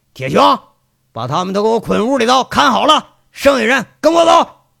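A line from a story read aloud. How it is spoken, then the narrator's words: Angry shout. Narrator (Chinese): 赵三刀这下有点冒火了，那挥着手喊着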